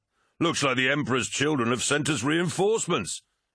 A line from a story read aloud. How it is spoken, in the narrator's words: shouted Erlen